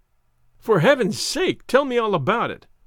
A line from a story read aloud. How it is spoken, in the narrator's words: I cried impatiently